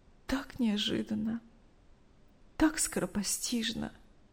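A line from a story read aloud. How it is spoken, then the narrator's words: Tearful. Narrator (Russian): Сквозь слезы рассказывала Мария Ивановна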